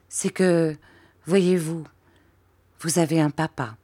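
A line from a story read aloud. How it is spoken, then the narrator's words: Broken halting voice. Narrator (French): dit Peggotty d'une voix entrecoupée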